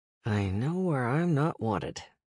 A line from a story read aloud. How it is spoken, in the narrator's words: Damien mumbled